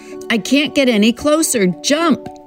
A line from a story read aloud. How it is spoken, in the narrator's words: shouts as the boat gurgles and sinks